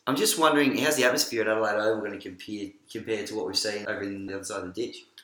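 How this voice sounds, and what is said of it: Slight put-on New Zealand accent. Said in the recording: “put on a bit of New Zealand accent”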